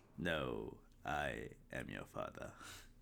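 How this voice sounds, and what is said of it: Darth Vader impression. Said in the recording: “That was pretty good. ... your Vader impression”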